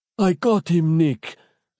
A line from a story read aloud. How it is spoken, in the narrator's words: said, gasping for breath